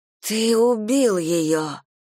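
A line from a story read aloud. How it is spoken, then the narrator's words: Breathless gasp. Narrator (Russian): выдохнула я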